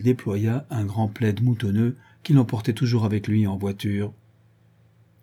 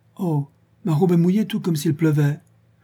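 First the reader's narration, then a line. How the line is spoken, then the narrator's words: Exclaiming, very surprised. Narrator (French): elle s'écria, très surprise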